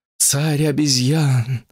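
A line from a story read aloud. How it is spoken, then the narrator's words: Breathless exhale. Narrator (Russian): выдохнула Гуаньинь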